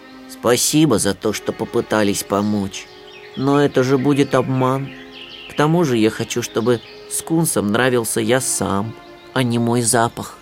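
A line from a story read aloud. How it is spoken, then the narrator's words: Sad. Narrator (Russian): Сильвестр только грустно посмотрел на Чипа и сказал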